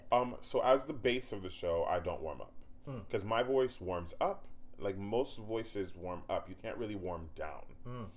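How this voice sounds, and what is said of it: Tired, husky, lower-pitched voice. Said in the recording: “I'm tired today, so my voice is a little more husky and sitting a little down.”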